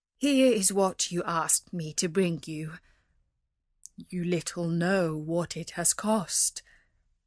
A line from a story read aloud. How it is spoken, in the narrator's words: he said sadly